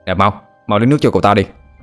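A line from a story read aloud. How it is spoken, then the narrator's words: Urgent shout. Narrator (Vietnamese): Cậu pháp sư mập mạp liền quay qua đồng bạn mà quát lên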